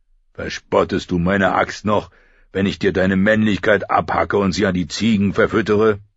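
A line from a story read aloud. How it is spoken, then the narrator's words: Roaring. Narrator (German): brüllte Chagger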